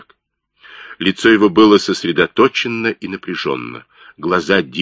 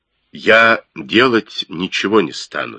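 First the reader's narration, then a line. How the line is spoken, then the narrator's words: Calm. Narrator (Russian): спокойно ответил Китсон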